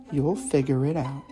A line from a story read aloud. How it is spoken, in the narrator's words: whispered